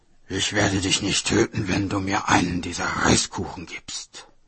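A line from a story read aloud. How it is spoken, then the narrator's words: Growling. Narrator (German): Der knurrte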